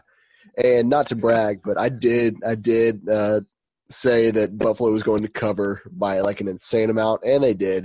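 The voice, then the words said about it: Strained voice after losing it. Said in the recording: “I lost my voice, so I can't really talk that well ... quality content with a sub quality voice”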